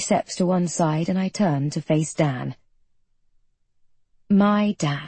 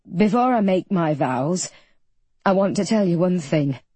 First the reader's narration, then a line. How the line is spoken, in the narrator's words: he says, his voice a little crackly